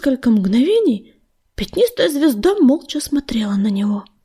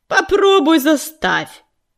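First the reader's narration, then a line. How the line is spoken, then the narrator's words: Warrior's snapping retort. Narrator (Russian): огрызнулся полосатый воин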